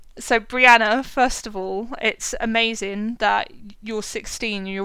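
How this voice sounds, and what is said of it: Usual voice. Nothing is said of it.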